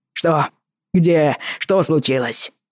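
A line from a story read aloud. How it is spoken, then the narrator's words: Roaring. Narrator (Russian): проревел Мердо Линдси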